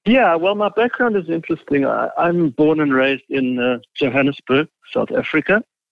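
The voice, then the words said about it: South African accent. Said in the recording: “you have an accent, which I love”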